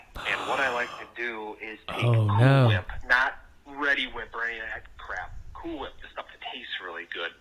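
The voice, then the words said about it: Wisconsin accent. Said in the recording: “my being from Wisconsin days, if you can't tell by my accent.”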